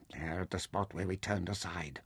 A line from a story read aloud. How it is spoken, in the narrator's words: Taita whispered